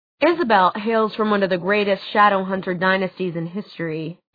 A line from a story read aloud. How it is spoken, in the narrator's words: Alex said dryly